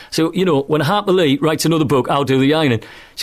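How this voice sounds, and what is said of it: Lush accent. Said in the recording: “your lush accent”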